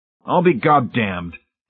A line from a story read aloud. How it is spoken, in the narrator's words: Hamilton said suddenly in a very loud, clear voice